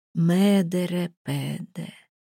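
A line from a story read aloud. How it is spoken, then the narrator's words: Quiet but clear. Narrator (Russian): тихо, но внятно сказал Крейн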